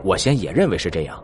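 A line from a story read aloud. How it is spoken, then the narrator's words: Low, deep voice. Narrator (Chinese): 薛无痕沉声道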